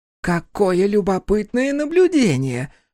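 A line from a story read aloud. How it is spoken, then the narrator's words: Exclaimed. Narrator (Russian): воскликнула Рати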